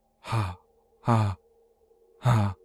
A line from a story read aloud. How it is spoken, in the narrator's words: breathing hard, and would quietly say